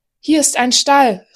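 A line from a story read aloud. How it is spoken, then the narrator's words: Excited man calling. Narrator (German): rief der Mann aufgeregt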